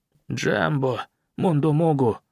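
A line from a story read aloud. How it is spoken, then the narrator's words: Whispered. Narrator (Russian): прошептал Камао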